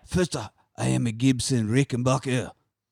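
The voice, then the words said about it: Rough put-on French accent. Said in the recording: “I like how dirty your French accent is. Yeah. I like it. ... none of it sounds like Van Damme at all”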